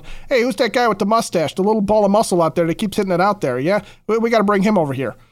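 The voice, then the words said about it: Bad put-on New York accent. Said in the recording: “That's a terrible New York accent, by the way.”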